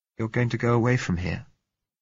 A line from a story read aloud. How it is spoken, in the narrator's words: she said